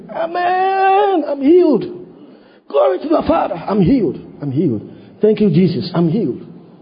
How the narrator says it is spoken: screamed

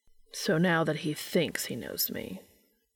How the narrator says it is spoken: Castiel said flatly

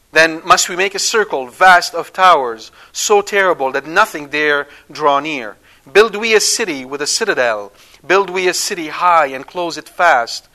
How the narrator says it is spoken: Enoch cried

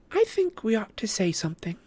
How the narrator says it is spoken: piped up Luna

